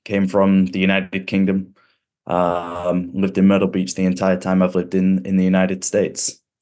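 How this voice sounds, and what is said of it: Cool British accent. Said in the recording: “I don't have an accent nearly as cool as”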